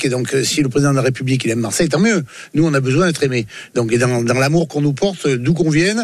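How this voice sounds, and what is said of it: Southern French accent. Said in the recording (French): “on est du Sud... Et du Sud, on a l'accent”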